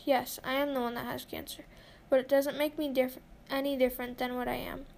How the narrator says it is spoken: I mumbled

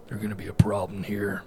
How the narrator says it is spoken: he grunted

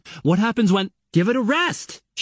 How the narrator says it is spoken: she shouts, interrupting angrily

